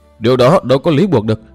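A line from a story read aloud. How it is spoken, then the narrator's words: Loud protest. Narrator (Vietnamese): lớn tiếng cự lại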